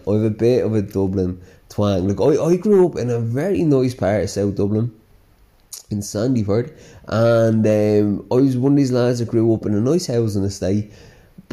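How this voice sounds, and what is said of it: Slight Dublin Irish accent. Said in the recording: “I've a bit of a Dublin twang”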